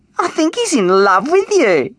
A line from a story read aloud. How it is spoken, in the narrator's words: giggled Anna in her ear